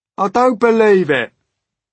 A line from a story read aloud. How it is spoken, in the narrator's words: shouted the centipede, raising his voice